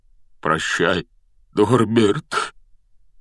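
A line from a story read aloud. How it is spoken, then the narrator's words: Breaking, strained voice. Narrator (Russian): Срывающимся голосом выдавил из себя Хагрид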